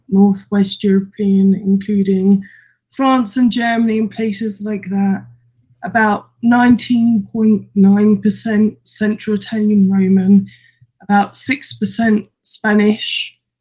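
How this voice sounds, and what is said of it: Portuguese accent. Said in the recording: “that beautiful Portuguese accent that you have there”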